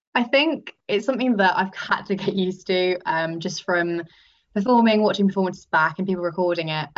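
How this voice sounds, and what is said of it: Hoarse, strained voice from shouting. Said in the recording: “It's a lot of me shouting. It's probably why I've lost my voice now.”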